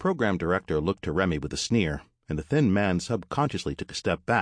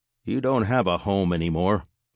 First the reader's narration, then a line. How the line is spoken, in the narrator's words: said evenly